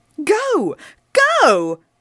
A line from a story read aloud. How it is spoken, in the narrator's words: I shouted